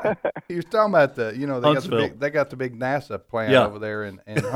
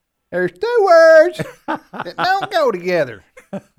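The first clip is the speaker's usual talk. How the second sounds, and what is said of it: Imitates another person's voice. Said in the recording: “that's a very good Jeff Foxworthy imitation”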